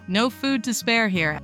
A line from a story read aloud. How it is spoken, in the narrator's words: said someone else